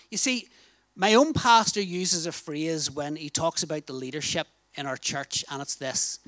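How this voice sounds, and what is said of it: Northern Irish accent. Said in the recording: “I hope my accent, ... In Northern Ireland, we call it a towel.”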